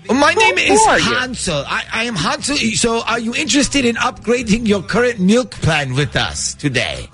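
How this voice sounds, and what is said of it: Put-on accent. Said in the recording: “I guess I can drop the accent then”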